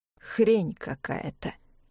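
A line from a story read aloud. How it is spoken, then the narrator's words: Through gritted teeth. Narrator (Russian): сквозь зубы сказал человек с фонариком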